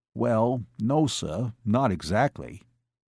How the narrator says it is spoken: Joe said flatly

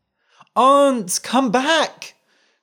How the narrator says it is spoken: cried the boy

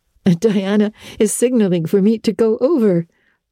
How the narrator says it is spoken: laughed Anne

